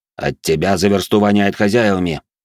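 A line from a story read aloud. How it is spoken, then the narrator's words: Grumbling. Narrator (Russian): проворчал в ответ Седой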